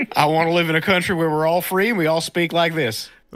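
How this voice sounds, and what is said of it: Put-on Texan accent. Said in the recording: “when you went into that accent ... it's to Texas”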